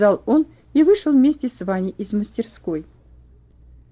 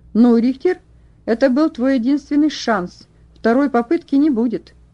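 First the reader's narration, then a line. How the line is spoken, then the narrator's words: Friendly tone. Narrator (Russian): сказал переделка, и все еще дружелюбным тоном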